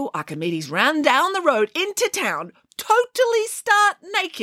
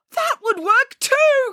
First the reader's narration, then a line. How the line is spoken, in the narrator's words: cried Archimedes